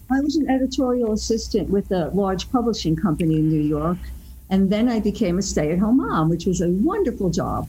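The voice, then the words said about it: New York accent. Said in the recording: “even though you're native New Yorkers, I can certainly tell by the accent”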